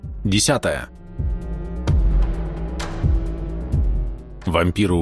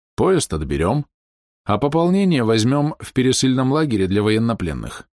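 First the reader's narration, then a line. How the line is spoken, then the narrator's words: Calm explanation. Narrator (Russian): спокойно объяснил Сергей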